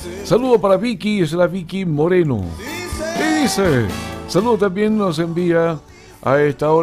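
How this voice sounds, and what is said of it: Usual voice. Nothing is said of it.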